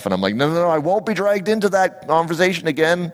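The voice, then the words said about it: Raised, louder voice. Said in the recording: “why am I raising my voice?”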